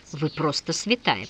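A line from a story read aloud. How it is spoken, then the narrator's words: Muttered. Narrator (Russian): пробормотал Свистунов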